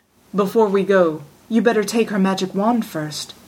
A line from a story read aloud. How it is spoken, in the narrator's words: said Roland